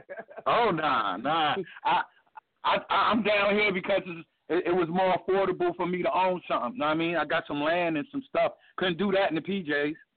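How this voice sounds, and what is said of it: New York accent with Southern tinge. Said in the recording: “you can hear that New York accent with that Southern Carolina”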